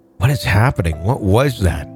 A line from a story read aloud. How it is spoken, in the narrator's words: whispered